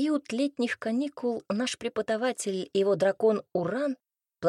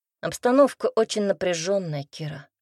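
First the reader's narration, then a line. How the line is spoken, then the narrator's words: Heavy sigh, teacher. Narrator (Russian): тяжело вздохнул преподаватель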